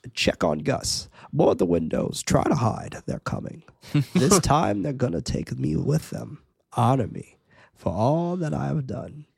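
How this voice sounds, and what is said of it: Character impression voice. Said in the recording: “that's a pretty good impression. ... That was really good.”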